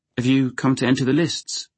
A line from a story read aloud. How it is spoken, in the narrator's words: Dunk asked anxiously